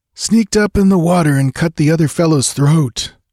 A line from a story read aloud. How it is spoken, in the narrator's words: groaned Balthus